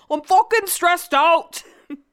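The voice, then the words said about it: Imitates another person's voice, bad accent. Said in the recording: “It's the worst accent ever.”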